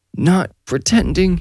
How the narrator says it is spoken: Darian squealed, sounding like he might puke if he squeezed himself any tighter

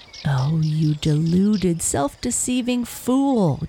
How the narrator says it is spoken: jeered the fox

